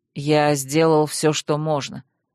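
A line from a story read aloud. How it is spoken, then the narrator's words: Curt, categorical. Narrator (Russian): категорично отрезал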